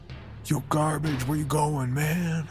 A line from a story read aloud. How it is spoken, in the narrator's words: Slug called out